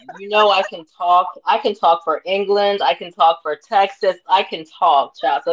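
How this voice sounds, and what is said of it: Southern twang. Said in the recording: “southern twang just came right out”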